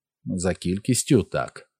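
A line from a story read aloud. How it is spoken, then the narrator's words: Replied calmly. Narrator (Ukrainian): спокійно відказав Дісмас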